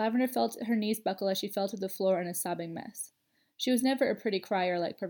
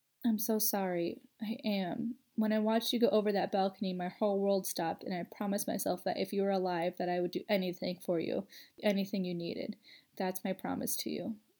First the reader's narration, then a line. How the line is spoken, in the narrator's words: Parvati whispered her in her ear